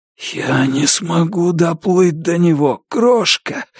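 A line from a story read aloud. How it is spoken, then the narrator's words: Hoarse wheeze. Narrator (Russian): прохрипел я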